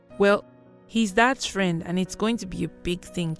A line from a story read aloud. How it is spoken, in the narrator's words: Chidinma said